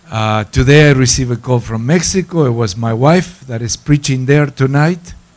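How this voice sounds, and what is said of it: Argentine-influenced accent. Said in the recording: “This sophisticated accent that I have, I acquired it in Argentina. I cannot get rid of it now”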